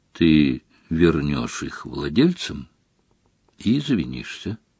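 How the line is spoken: Calm. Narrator (Russian): спокойно сказал Дамблдор

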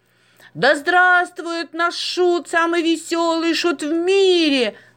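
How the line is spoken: Crowd shouting. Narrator (Russian): закричали из толпы

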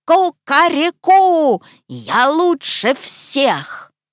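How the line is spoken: Loud squawking bird shout. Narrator (Russian): Крикнул гусь, гаркнул во все пеликанье горло

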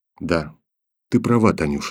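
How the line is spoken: Barely audible. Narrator (Russian): сказал он еле слышно

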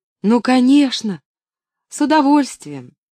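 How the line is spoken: Quick exclamation. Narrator (Russian): тут же воскликнула Поллианна

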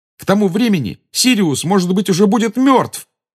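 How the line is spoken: Angry exclamation. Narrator (Russian): воскликнул Гарри, в сердцах

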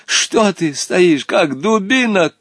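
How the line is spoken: Shout. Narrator (Russian): крикнул инспектор

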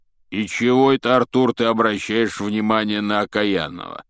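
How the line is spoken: Grumbling. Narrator (Russian): пробурчал Хагрид

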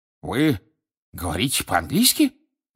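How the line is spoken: Indignant exclamation. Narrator (Russian): возмущенно воскликнул Фадж

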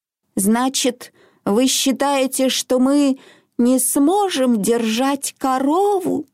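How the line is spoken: Old woman's trembling voice. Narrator (Russian): спросила бабушка дрогнувшим голосом

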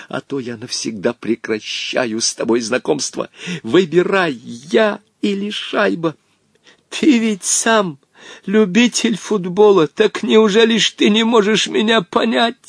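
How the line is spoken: Old man pleading. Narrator (Russian): взмолился старик

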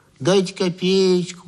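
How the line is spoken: Nasal drawling whine. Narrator (Russian): гнусавил протяжный дурачок

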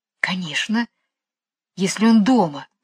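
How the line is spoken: Whisper. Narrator (Russian): шепнула Джейн Майклу

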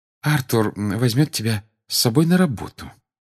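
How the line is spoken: Soft answer. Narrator (Russian): мягко ответила она

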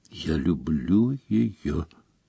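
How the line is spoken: Barely audible repetition. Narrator (Russian): чуть слышно повторил Рон

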